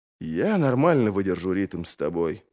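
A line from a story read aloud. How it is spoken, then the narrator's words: Muttered reply. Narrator (Russian): пробормотал в ответ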